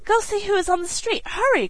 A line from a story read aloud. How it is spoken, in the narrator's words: cried the excited mother